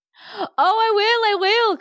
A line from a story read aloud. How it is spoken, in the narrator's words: cried Susan